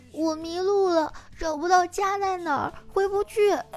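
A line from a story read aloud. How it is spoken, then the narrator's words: Little girl crying. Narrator (Chinese): 小女孩哭着说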